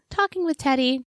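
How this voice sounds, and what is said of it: High-pitched childlike character voice. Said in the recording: “You liked my high voice there?”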